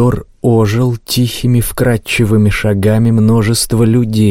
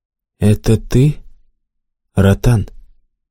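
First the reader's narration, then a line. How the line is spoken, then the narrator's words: Calm question. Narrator (Russian): спокойно спросил отставной мифотворец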